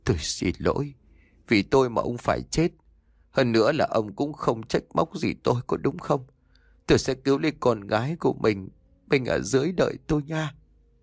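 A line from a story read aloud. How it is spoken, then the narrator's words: Hurried muttering. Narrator (Vietnamese): bà vội lẩm bẩm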